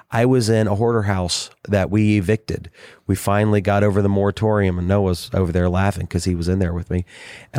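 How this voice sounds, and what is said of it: Hoarse, sick voice. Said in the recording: “I sound so hoarse, this isn't my normal voice ... I'm sick. I got a sinus infection”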